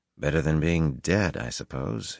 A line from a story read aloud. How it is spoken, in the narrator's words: he muttered